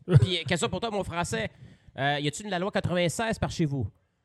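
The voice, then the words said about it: Put-on accent. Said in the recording (French): “Pourquoi tu fais un accent?”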